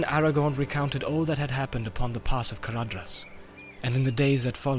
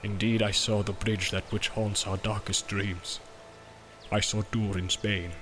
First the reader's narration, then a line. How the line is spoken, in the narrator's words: said Gimli in a low voice, and dread was in his eyes